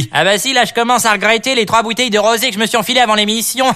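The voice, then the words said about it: Exaggerated Parisian street accent. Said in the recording (French): “Avec votre accent ridicule, là, ça m'insupporte ... c'est l'accent de Paris, hein, l'accent de la rue”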